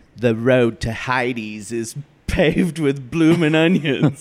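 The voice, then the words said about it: Put-on Australian accent. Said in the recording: “Is that my Australian accent? How was that? ... I think it was great. ... It was good. ... It was no French accent, but it was great.”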